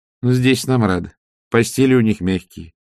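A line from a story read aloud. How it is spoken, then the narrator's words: Plain. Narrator (Russian): сказала матушка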